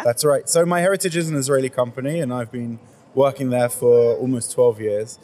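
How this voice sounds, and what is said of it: British accent. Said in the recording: “You didn't grow up in Israel. Your accent gives you away. ... You grew up in the UK, yeah?”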